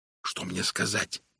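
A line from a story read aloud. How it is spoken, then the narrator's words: Whisper. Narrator (Russian): прошептал я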